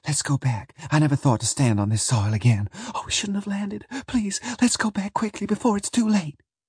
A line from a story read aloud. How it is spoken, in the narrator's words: she whispered